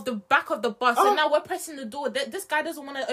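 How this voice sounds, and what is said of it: Usual voice. Nothing is said of it.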